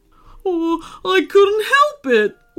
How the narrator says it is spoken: wailed Phoebe

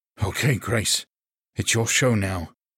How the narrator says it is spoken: he muttered

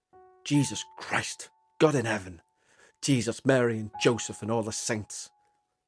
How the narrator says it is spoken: muttered

